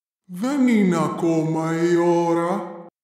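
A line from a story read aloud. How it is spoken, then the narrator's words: Guttural voice. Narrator (Greek): του απάντησε με λαρυγγική φωνή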